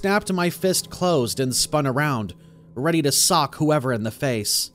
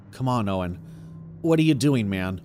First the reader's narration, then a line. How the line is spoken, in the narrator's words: mumbled quietly to myself